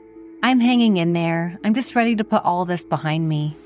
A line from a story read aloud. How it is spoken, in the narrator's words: Olivia replied with a sigh